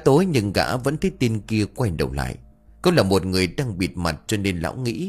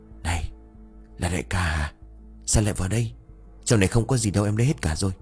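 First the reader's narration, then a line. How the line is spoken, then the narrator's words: Asked softly. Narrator (Vietnamese): nó khẽ hỏi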